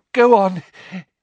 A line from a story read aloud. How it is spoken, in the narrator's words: he panted